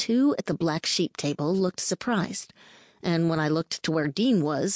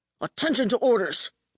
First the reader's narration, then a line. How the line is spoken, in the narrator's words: bellowed Zack, in a good approximation of what I'd heard in the past from Admiral Waters or Admiral Jane